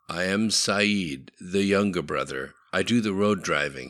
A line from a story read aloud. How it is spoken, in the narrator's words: he said